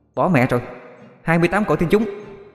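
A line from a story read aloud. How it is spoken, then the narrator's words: Exclaiming. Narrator (Vietnamese): Bảo an kêu lên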